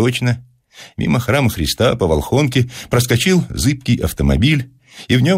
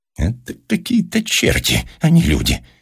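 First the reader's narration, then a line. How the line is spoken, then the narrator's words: Muttering through clenched teeth. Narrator (Russian): сквозь зубы пробормотал зоолог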